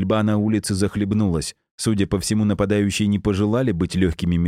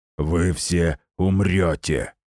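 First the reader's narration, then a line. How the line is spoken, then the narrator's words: Growled. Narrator (Russian): прорычал он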